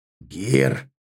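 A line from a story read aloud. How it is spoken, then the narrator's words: Warning growl. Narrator (Russian): предупреждающе прорычал Аркар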